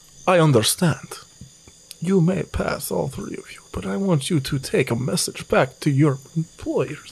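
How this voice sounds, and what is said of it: Atrocious put-on accent. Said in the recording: “This accent's fucking atrocious.”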